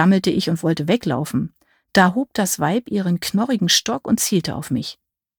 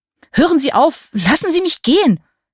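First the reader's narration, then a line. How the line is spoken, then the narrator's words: Screaming. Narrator (German): schrie ich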